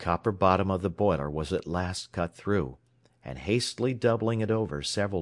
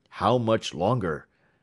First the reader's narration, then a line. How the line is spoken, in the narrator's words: said the superintendent in a tense voice